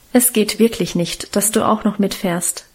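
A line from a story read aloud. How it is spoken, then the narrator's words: Plain. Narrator (German): sagte sie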